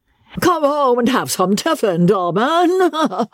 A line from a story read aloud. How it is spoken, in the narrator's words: a voice cried behind him